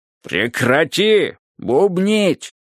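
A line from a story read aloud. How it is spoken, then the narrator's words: Roaring, three voices. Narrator (Russian): проревели все три ее голоса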